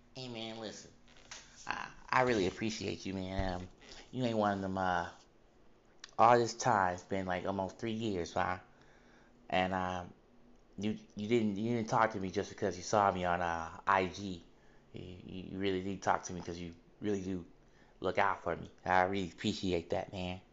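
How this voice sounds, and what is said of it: Imitating a friend's voice. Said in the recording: “he gonna kill me trying to do his voice.”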